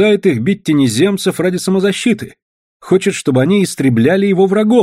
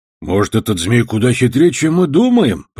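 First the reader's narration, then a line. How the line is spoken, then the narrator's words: Grumbling. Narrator (Russian): проворчал Бадья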